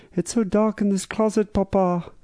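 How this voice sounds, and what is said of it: Impression of Anne Frank's voice. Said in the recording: “doing an impersonation of her voice”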